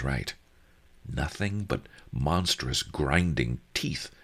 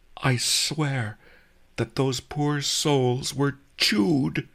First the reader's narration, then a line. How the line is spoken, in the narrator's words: he gasped